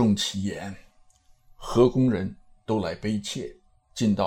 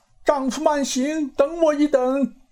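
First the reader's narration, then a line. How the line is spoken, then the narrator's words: Sudden call. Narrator (Chinese): 那公主忽地叫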